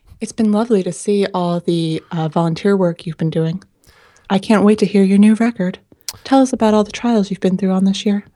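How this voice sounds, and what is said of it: Smooth public-radio host voice. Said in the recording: “in my radio voice? ... NPR voice”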